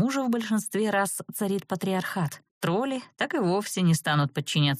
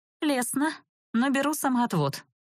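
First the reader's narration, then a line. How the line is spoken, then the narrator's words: Wry snort. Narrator (Russian): хмыкнула я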